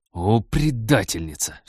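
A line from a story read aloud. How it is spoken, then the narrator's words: Angry bark. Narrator (Russian): в сердцах рявкнул Станислав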